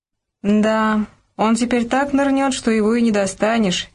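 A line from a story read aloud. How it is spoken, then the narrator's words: Heavy sigh. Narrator (Russian): тяжко вздохнул майор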